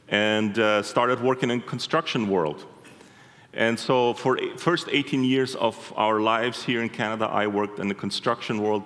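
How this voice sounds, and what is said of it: Slight foreign accent. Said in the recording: “You might be hearing a bit of an accent.”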